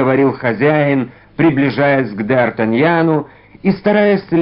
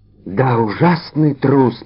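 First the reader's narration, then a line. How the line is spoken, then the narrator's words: Whisper. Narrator (Russian): прошептал Д'Артаньян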